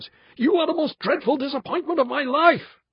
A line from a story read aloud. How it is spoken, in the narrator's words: he cried